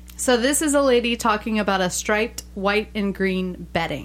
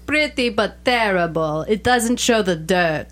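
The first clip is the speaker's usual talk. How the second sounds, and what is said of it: Put-on Russian accent. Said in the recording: “Russian accent”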